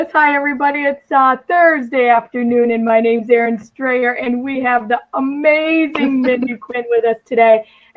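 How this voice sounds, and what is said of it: Hoarse, partly lost voice. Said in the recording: “Pardon my voice. I was in a conference this weekend, and I went all in ... I still don't have it back.”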